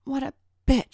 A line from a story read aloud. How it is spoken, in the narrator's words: spat Tracy